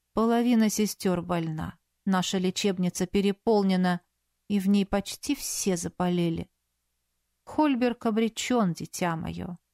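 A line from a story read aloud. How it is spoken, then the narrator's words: Calm voice, mother superior. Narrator (Russian): спокойным голосом произнесла мать-настоятельница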